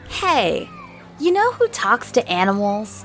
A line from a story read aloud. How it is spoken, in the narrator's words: Carl said brightly